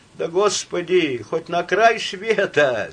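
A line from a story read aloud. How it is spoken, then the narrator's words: Laughing. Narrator (Russian): засмеялся диакон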